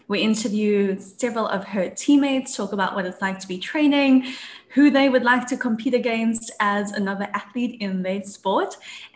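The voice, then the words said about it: Speaks with a noticeable accent. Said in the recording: “You've got an accent.”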